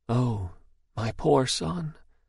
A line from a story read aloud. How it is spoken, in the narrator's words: From some very far distant place he heard a voice whisper